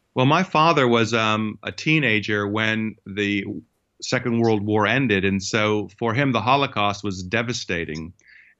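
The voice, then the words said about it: American accent. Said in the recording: “as you can tell from my accent, it actually was in the United States where I grew up”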